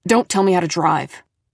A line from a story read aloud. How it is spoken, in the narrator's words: he snapped